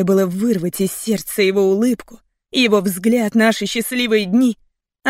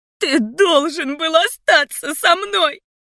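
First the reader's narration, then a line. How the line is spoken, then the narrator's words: Sobbing accusation. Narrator (Russian): Обвиняла сквозь рыдание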